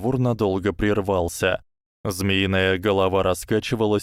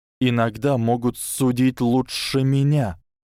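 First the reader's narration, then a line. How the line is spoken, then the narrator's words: Hiss. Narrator (Russian): прошипел Гарри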